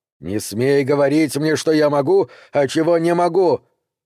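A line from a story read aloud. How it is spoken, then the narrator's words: Shouted reply. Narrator (Russian): крикнул в ответ тот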